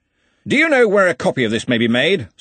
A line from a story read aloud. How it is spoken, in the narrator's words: said Ridcully loudly